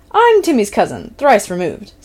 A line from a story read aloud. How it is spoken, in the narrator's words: Steph declared happily